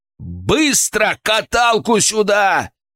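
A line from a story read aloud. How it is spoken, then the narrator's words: Yelling. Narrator (Russian): заорал я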